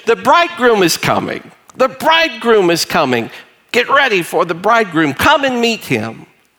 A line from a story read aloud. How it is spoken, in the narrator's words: That messenger would shout to the village